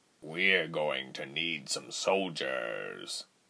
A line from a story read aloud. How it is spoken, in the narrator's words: he muttered